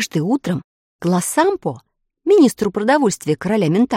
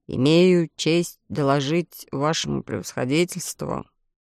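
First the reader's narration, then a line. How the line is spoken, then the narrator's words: Glum. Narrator (Russian): уныло начал он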